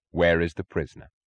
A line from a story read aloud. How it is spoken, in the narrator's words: Francisco asked him